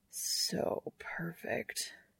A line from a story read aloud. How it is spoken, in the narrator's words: Castiel murmurs